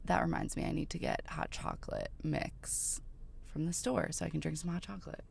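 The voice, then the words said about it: Sick-sounding voice, sore throat. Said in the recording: “you can probably hear in my voice, I'm a tad sick ... sometimes your throat hurts after”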